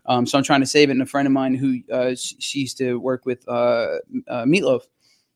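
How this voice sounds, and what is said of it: Slightly hoarse voice. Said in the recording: “my voice has been a little hoarse”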